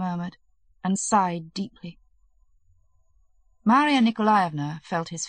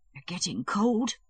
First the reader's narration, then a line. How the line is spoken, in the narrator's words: she whispered